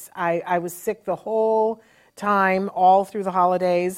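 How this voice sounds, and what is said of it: Voice still sounds sick. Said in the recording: “I was horribly, horribly sick... you probably can still hear it in my voice.”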